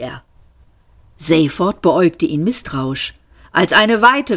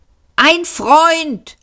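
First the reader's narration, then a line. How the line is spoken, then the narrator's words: Shouted back. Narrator (German): schrie der Mann zurück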